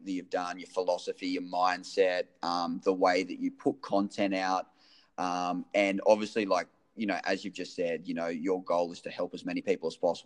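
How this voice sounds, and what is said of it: Non-American accent. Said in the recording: “I'm incredibly jealous of your accent because I feel like it makes everything sound way cooler than the American accent.”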